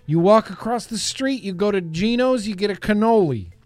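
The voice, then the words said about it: Put-on New York accent. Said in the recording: “That's just my New York accent.”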